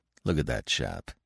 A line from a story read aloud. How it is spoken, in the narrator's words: said Rosser in a low voice